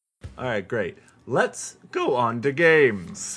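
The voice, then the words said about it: Odd cracking, puberty-like voice. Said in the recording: “What was that voice? ... sitting in his second puberty.”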